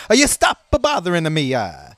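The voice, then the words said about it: Put-on accent, not very good. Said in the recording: “my accents aren't that good, but how good is this?”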